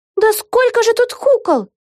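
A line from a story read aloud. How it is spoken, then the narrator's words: Exclaiming. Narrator (Russian): воскликнула Вега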